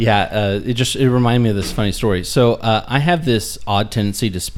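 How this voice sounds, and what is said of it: Usual voice. Nothing is said of it.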